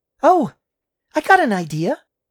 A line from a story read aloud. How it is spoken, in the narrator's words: Laura exclaimed